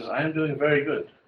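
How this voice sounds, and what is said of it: Put-on German accent. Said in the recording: “She's German all of a sudden. ... I can try to do it in an accent.”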